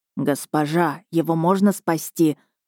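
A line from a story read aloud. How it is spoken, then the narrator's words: Anxious question. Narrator (Russian): взволнованно спросил подошедший Мирон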